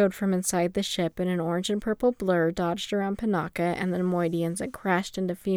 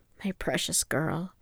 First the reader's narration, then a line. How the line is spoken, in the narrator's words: Fimor whispered into the mass of her hair